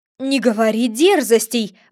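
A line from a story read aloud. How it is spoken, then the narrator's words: King exclaiming. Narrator (Russian): воскликнул король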